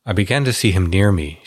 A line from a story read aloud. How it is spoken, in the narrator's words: she said